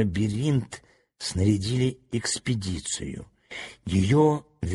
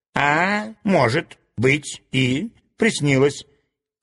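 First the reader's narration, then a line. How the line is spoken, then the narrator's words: Snide remark. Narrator (Russian): ехидно заметил доктор Рабиль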